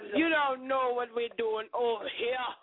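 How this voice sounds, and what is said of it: Put-on Jamaican accent. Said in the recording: “I got my Jamaican accent in here.”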